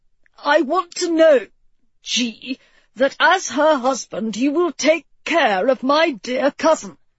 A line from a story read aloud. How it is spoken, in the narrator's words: Edward wheezed